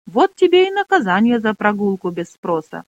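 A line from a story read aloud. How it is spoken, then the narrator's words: Plain. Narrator (Russian): сказала Шара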